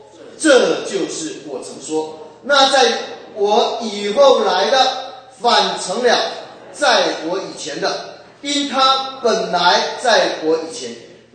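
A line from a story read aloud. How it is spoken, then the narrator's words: Shouting. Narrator (Chinese): 约翰喊着说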